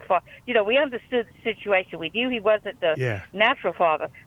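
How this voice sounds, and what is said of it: Louisiana accent. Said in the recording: “your Louisiana accent”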